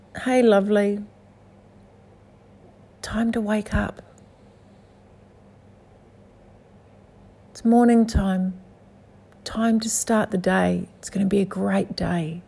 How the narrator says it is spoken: gently touches your shoulder and says

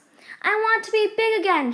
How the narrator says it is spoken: she shouted

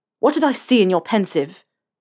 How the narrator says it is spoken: Harry snapped at him

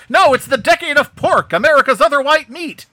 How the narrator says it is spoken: he yells

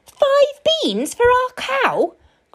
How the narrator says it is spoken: cried his mother

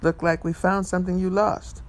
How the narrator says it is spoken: the cop cheerfully said

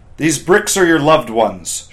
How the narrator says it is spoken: shouted the instructors

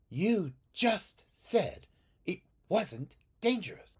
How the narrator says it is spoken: Xiaoyan snapped

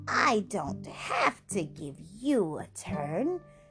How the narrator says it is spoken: laughed the witch

